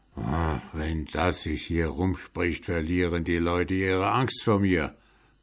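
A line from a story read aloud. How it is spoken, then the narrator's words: Muttering grumble. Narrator (German): brummelte er vor sich her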